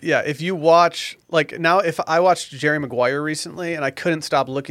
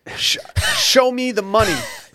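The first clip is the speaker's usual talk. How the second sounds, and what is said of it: Imitates another person's voice. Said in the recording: “That's my impression.”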